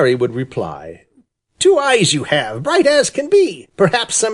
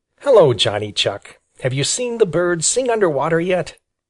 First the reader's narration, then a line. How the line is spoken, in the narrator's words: gravely say